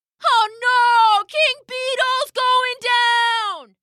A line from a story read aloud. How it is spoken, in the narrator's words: cried